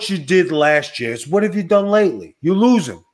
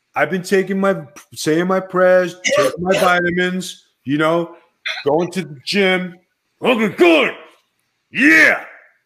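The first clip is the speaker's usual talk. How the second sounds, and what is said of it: Imitates another person's voice. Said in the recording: “Did you just do your Macho Man voice? ... Oh, yes, the Macho Man.”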